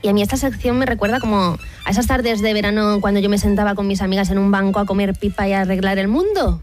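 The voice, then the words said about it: Málaga Andalusian Spanish accent. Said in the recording (Spanish): “Me ha salido el acento. ... al pensar a mi gente de Málaga, pues me sale de ahí del alma.”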